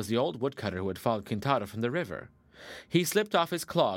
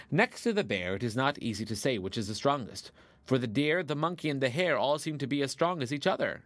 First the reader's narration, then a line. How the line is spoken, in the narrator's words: said Kintaro